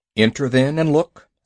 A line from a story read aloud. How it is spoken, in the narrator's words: said Father Wolf stiffly